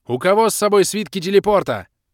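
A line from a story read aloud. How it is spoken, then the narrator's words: Shout. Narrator (Russian): крикнул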